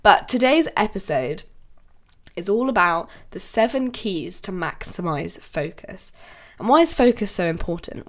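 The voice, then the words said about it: Voice sounds a bit funny, cold-affected. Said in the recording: “my voice does sound a little bit funny because I actually have COVID right now, and I, you know, have a little bit of a cold ... my voice sounds a bit funny”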